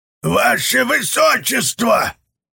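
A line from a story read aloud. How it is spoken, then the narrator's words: Roaring. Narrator (Russian): взревел он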